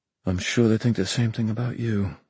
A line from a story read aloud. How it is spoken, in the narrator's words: Mark muttered